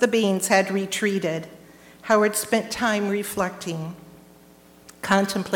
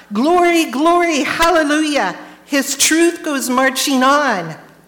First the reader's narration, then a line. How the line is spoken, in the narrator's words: shout